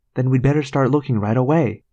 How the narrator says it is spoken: Rachel said brightly

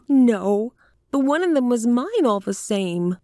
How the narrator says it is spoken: whined the little woman

